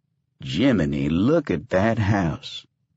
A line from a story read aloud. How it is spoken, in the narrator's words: Buster said